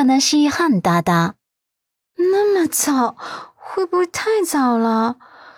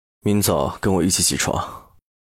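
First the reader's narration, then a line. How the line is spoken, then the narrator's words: Hoarse, domineering command. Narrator (Chinese): 嗓音近乎沙哑，霸气的命令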